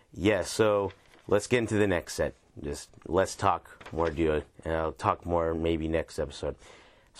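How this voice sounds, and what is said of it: Voice sounds rough and unwell. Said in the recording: “Excuse my voice, by the way. I'm actually just recovering from being sick recently”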